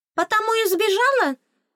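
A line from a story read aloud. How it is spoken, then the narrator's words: Fairy's knowing exclamation. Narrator (Russian): догадливо воскликнула фейка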